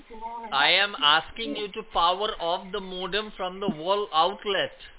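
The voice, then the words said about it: Speaking louder than normal. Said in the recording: “I'm not raising my voice. It's just I thought you're not able to hear me, so I just trying to speak a bit louder.”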